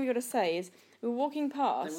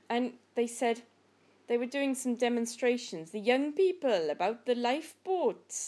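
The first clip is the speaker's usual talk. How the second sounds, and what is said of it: Put-on Welsh accent. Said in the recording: “my Welsh accent's shite. ... It's not, actually. It's really good.”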